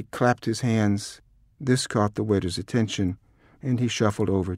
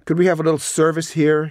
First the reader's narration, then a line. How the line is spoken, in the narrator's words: he shouted